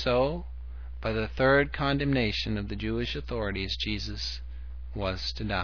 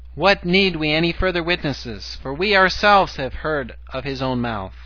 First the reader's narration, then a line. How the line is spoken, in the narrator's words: They cried out